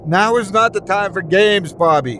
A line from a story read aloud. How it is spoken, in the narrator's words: she screamed